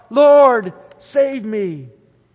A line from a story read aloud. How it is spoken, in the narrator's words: he was afraid and beginning to sink, cried out